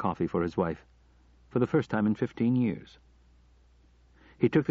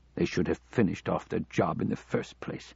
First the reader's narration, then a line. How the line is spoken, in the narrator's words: McKenzie muttered